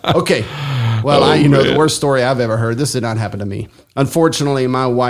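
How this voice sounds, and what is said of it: Usual voice. Nothing is said of it.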